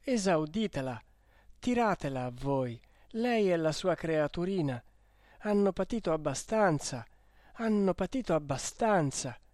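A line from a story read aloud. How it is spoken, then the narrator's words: Exclaimed. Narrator (Italian): esclamò Renzo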